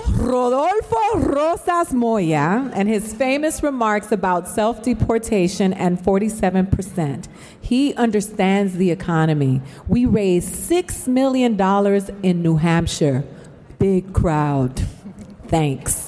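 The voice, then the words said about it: Put-on Latina accent. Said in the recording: “I'll just do mine with my Latina accent.”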